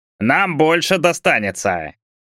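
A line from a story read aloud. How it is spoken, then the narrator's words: Loud. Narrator (Russian): Тоже громко сказал десятник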